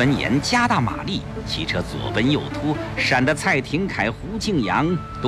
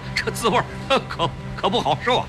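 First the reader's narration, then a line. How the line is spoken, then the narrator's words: Forced laugh. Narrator (Chinese): 胡庆阳勉强笑笑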